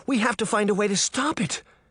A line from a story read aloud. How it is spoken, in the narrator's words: Daphne cried between gasps